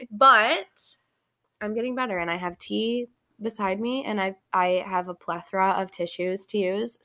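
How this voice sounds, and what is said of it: Congested voice from a cold. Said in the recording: “I'm recovering from a horrible cold ... in case my voice sounds different in the next episode, it's because I'm not sick anymore ... I've had to blow my nose a million times”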